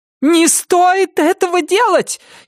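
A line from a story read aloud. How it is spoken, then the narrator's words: Frantic screaming. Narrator (Russian): истошно вопила миссис Сама рассудительность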